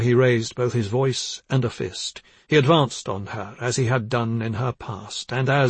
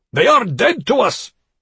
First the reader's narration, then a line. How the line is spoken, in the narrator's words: he roared